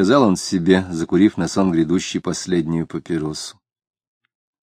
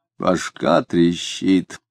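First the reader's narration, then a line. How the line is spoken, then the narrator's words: Hoarse rough growl. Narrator (Russian): хрипло сказал он, и хозяйски грубовато зарычал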